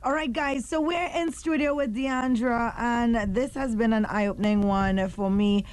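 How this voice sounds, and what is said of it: Usual voice. Nothing is said of it.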